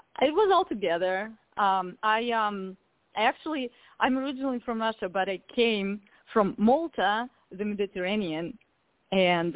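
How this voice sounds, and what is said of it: Beautiful foreign accent. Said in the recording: “with that accent, it's just beautiful”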